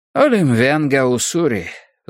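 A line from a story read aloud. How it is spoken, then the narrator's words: Sighing newcomer. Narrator (Russian): вздохнул пришедший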